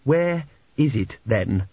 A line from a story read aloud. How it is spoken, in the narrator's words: said Petrucci evenly